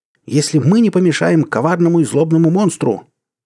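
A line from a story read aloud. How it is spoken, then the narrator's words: Shouted. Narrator (Russian): эти слова Берензон аж выкрикнул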